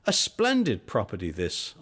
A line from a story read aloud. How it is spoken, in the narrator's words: I cried